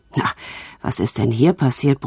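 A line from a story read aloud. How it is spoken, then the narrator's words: Grumbling. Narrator (German): brummte er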